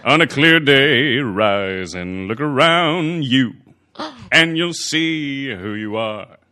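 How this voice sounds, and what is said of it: Imitates another person's singing voice. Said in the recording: “I totally did my Goulet impression”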